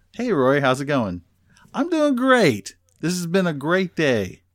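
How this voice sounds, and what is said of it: Sarcastic cheerful tone. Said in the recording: “responding with that sarcasm ... she's being sarcastic”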